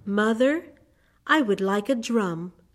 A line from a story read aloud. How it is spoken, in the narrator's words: replied